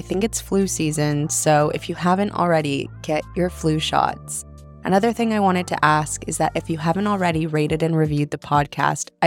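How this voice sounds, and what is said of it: Slightly nasal, congested voice. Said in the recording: “if I sound a little nasally today. I'm getting over a cold.”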